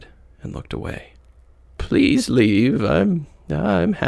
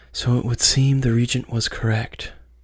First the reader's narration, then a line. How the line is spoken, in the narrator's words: she whispered to herself